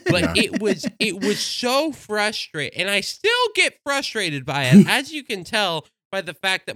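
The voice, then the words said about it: Frustrated voice turning cartoonish. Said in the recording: “my voice is slowly turning into a cartoon”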